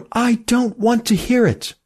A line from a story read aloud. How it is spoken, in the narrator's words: cried Emmy